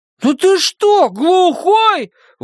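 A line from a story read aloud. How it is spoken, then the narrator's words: Indignant shout. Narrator (Russian): возмущенно крикнул Том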